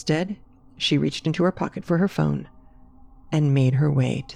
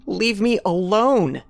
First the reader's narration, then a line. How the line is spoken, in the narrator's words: Carrie yelled